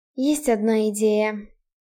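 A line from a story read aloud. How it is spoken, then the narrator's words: Quiet speech. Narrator (Russian): тихо сказала Рене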